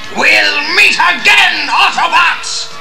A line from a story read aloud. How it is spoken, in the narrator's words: He bellowed